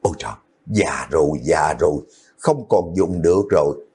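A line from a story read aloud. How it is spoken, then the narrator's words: Old woman's weary sigh. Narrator (Vietnamese): bà lão thở dài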